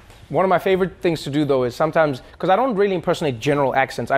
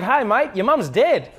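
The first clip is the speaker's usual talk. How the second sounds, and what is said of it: Australian accent, upbeat rising intonation. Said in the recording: “Australian accent is that you always sound happy, because always, like, it doesn't matter what it is, but it always goes up, and it's, like, really exciting”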